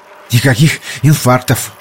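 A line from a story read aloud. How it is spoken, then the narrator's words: Breathless, panting. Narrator (Russian): выдохнул Соломон Кан, тяжело дыша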